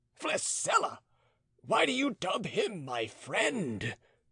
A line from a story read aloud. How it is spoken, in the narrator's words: exclaimed the prison warden